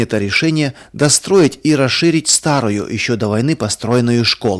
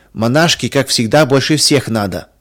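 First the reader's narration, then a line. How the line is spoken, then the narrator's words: Snide giggling girls. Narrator (Russian): ехидно посмеивались девочки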